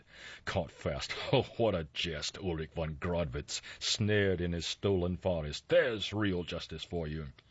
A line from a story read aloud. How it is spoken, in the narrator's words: as he laughed again mockingly and savagely